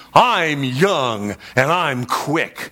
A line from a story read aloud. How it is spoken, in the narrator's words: he angrily asked her